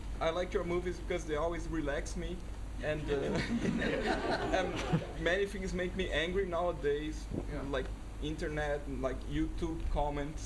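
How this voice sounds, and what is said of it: Non-native English accent. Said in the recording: “sorry for my accent. I'm not British or English or American.”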